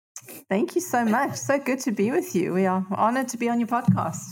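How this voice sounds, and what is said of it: South African accent. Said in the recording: “you guys are from somewhere else originally, and people are going to know that by your accents right away ... Originally the South Africa.”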